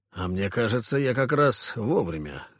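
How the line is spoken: Dry. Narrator (Russian): сухо сказал регент

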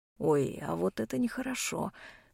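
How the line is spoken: Rogue muttering. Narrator (Russian): бормочет пройдоха

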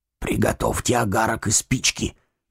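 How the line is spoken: Whisper. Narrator (Russian): шепнул следователь своему помощнику

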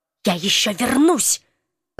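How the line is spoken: Spiteful whisper. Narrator (Russian): злобно прошептал ученый

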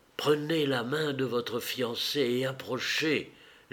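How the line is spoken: Whispered. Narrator (French): lui souffla le garçon d'honneur

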